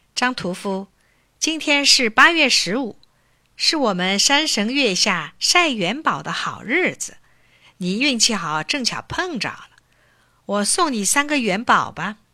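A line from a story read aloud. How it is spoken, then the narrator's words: Smiling old woman. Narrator (Chinese): 一个通身闪着银光的老婆婆，她笑微微地对张太说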